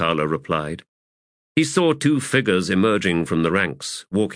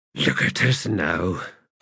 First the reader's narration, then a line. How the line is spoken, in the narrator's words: Quick Ben muttered